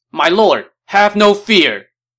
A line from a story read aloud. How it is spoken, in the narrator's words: one officer shouted